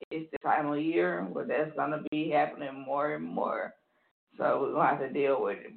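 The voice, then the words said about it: Voice cutting in and out. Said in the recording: “my voice is going in and out”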